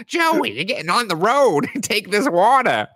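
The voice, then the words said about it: Put-on mom voice. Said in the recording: “this is just my mom voice. ... that sounds nothing like her”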